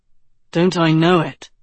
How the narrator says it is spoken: Tedros said flatly

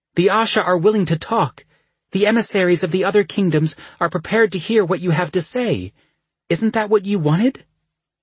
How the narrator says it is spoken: her voice raw when she spoke

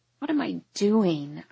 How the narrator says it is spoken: I mumble into the emptiness around me

